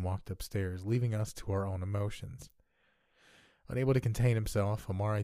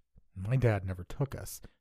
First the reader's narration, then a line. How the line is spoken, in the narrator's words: Mark cut in with an exasperated sigh